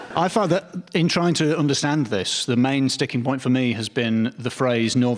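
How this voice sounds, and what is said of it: Usual voice. Nothing is said of it.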